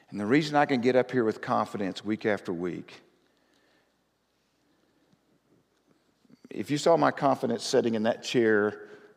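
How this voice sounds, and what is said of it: Twangy accent. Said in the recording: “my twang gets me in trouble at times”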